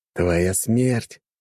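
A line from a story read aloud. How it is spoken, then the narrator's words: Menacing. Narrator (Russian): грозно сказал Джон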